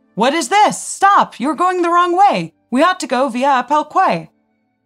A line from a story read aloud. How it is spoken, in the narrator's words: Seeing the first two cars erroneously turn, Potiorek in the third car loudly shouted